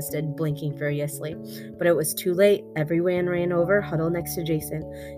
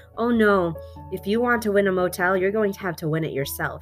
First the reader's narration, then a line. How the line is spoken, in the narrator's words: said